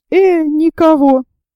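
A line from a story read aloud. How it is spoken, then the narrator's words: Sergeant's exclamation. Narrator (Russian): воскликнул сержант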